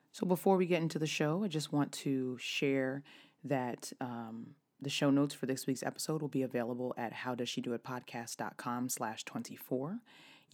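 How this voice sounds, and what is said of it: Slightly raspy voice. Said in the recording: “is a little bit raspy ... why my voice is a little raspy ... a lot of talking over music”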